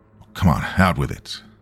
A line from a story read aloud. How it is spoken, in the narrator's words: I said impatiently